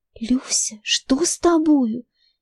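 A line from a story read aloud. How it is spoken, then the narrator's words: Warning whisper. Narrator (Russian): шепнула она предостерегающе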